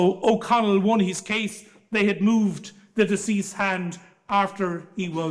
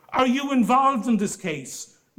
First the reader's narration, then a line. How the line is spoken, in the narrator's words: he said in a very annoyed voice